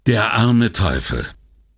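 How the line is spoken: Sighing. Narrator (German): Palazzi seufzte

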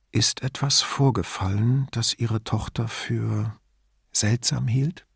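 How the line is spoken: Very quiet, secretive question. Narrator (German): fragte so leise, als dürfe niemand im Raum es mitbekommen

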